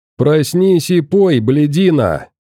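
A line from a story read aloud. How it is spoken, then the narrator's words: Booming voice. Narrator (Russian): Прогремел уже знакомый голос мелкого ублюдка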